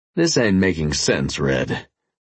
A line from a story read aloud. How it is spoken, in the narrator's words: I rasped